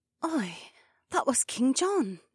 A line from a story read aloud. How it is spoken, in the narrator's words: Becca said quietly